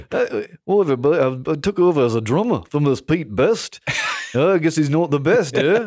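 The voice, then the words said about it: Imitates another person's voice. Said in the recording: “my Ringo Starr impersonation ... Pretty good ... That's excellent.”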